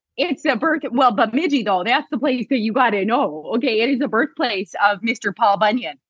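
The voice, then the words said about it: Northern Minnesota accent. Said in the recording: “it sounds like you have some sort of an accent ... I'm from very northern Minnesota, Bemidji, Minnesota.”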